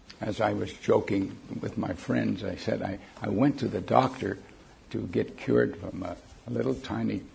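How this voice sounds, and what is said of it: Impaired, strained voice. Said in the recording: “excuse my voice ... my voice box was not quite working properly”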